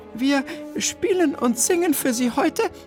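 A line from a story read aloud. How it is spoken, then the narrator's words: Slightly trembling voice. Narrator (German): wandte Bertha sich mit leicht zittriger Stimme an das erstaunte Publikum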